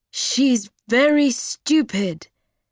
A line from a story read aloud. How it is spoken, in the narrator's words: shouted